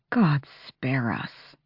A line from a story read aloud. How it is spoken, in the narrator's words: Fenris murmured